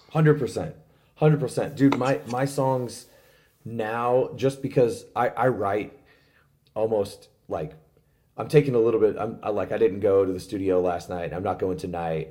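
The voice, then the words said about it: Strained, worn-out voice. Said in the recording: “my voice is a little shot right now, like, from this past weekend”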